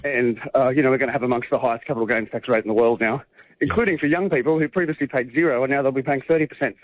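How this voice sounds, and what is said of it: Out of breath, breathless speech. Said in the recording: “You're out of breath because you've got to run and make that plane. ... Walking very fast.”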